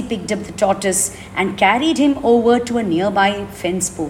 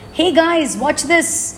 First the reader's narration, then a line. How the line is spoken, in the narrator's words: he called out